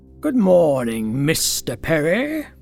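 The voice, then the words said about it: Dignified accent with sinister hiss. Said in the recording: “simultaneously spoken with a dignified accent and a sinister hiss”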